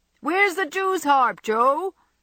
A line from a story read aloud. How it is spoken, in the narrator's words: cried Laurie, as soon as he was within speaking distance